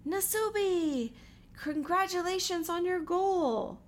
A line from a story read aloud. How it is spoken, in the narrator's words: The crowd shouted in unison